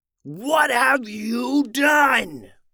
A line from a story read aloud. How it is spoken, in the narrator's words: roared Maxo